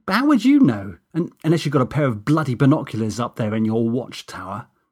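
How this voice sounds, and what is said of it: Stroppy teenager voice. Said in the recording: “continuing with my stroppy teen impersonation.”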